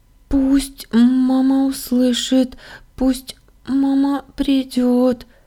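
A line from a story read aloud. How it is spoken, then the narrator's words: Thin singing, slight stutter. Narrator (Russian): тоненьким голоском запела я, слегка заикаясь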